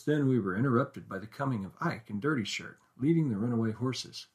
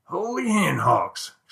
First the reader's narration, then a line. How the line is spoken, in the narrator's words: exclaimed Dirty